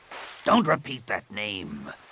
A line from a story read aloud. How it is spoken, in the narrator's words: Rapung snarled